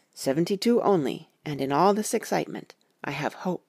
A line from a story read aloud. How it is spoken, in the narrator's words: said, as calmly as though we had been having a sick-room consultation